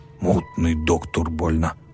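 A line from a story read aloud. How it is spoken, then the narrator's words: Grumble. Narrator (Russian): проворчал хозяин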